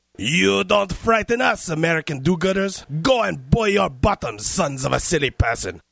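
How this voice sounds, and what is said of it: Outrageous put-on French accent. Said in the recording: “I'm French. Why do you think I have this outrageous accent”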